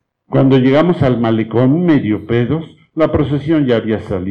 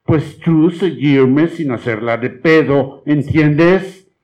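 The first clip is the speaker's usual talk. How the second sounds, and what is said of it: Imitated American accent in Spanish. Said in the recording (Spanish): “imitando su acento ... los gringos”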